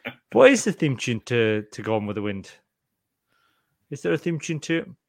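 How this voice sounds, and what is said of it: Usual voice. Nothing is said of it.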